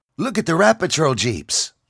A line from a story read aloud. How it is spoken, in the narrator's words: John exclaimed